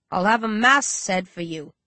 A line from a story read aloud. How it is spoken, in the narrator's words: Rage snaps, then sighs